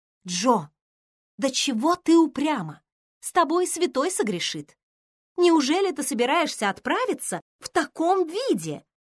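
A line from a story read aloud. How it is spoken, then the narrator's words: Amazed exclamation. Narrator (Russian): воскликнула Эмми, оглядывая ее с изумлением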